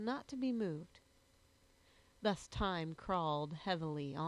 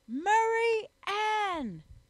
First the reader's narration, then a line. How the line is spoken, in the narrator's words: shouted he